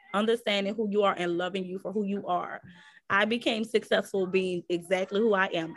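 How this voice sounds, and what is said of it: New Orleans accent. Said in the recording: “I'm from New Orleans, so my dialect is a little different. The way I articulate my words is a little different.”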